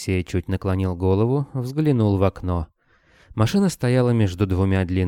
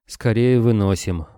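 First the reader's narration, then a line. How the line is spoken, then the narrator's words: Gloomy reply, heavy sigh. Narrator (Russian): мрачно отозвался оборотень и тяжело вздохнул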